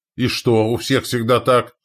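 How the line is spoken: Exclaiming commander. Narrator (Russian): воскликнул воевода Александра

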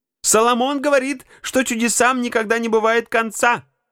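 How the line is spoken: Cheerful shout. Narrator (Russian): весело крикнула миссис Раут старой леди

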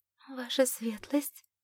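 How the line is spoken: Embarrassed mumble. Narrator (Russian): краснее пробормотала Энн

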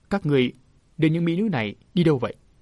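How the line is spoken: Cold stern question. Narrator (Vietnamese): Thế Lãm lạnh lùng hỏi

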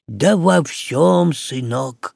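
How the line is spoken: Soft. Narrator (Russian): мягко проговорил Синегорский

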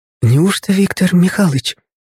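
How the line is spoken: Loud whisper. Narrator (Russian): прозвучал в ответ такой же громогласный шепот

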